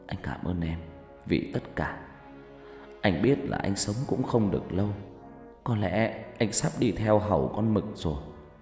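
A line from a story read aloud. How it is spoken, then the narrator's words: Whisper. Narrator (Vietnamese): Phát thì thào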